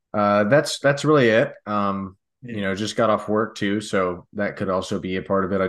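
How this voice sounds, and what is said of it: Rough, congested voice. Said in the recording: “You're looking kind of rough. ... I've got some allergies going on. I don't know if you can tell from my voice.”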